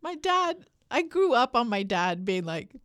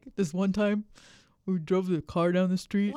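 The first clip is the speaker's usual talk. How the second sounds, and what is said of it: Imitates a typical dad's voice. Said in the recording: “Why does your dad sound like my dad? ... that's the dad voice.”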